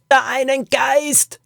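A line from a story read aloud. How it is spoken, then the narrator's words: Scream over cave noise. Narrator (German): schrie sie ihm durch den Lärm in der Höhle zu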